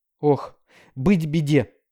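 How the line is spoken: Groaning. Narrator (Russian): простонал он

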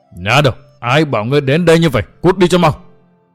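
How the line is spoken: Frantic roar. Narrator (Vietnamese): Phỉ Nguyên Hoàng bất giác điên cuồng gầm rống, nói

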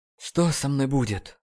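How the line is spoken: Breathless exhale. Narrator (Russian): выдохнул Нейт

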